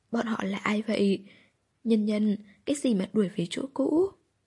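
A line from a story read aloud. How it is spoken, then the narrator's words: Mother, emotional, trembling. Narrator (Vietnamese): Mẹ Hạ, kìm lòng không được, run rẩy nói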